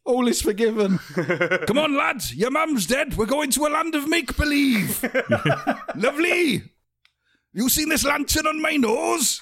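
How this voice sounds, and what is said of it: Put-on Welsh accent, cartoon character. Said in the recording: “a Welsh accent”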